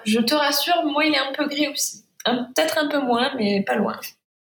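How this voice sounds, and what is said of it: Sing-song Provençal French accent. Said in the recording (French): “ton joli accent euh, chantant ... Je suis à Saint-Rémy de Provence, donc en Provence, c'est de là que vient mon accent.”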